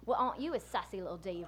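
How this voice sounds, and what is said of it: Put-on British accent. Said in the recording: “my attempt at a British accent ... That was pretty good ... That was good”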